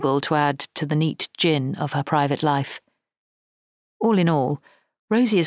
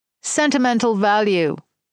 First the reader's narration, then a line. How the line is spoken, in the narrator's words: yells Rosie